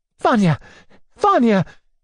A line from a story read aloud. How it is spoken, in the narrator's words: cried